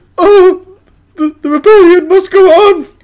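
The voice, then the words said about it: Imitates another person's voice. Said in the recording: “that's a really good impression, actually”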